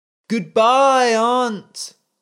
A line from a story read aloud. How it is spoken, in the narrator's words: the boy cried into the sea